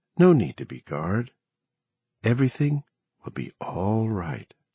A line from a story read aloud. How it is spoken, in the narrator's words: In that same tender voice, Bobby said